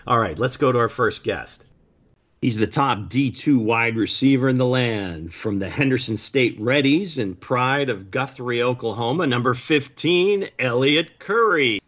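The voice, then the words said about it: Announcer-style radio voice. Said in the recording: “that was my best radio voice.”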